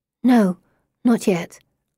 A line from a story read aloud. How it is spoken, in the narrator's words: I whisper